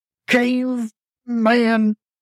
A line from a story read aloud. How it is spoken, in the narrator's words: Bart croaked, painfully gasping